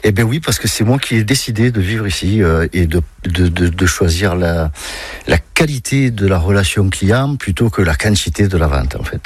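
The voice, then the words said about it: Marseille accent. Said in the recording (French): “Cet accent, il vient d'où ? ... De Marseille, Marseille-Centre.”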